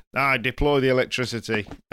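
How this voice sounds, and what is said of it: Put-on northern English accent. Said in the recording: “I decided to do a northern accent as well.”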